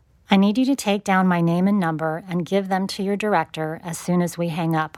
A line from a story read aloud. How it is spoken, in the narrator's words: I said, my voice clear and steady, a fighter pilot radioing troops on the ground